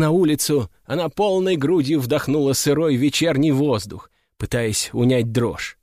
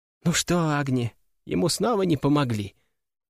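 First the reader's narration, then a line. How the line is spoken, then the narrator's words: Boy asking quietly. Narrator (Russian): тихо спросил мальчик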